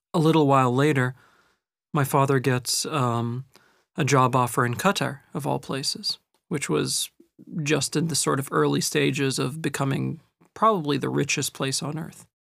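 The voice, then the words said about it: Mixed British and American English accent. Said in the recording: “this accent you're hearing right now, which is the product of British and American schools”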